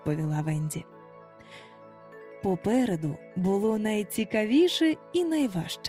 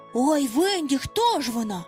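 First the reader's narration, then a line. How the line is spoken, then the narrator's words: Feigned excited exclamation. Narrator (Ukrainian): вигукнув Хвалько так схвильовано, наче і справді не знав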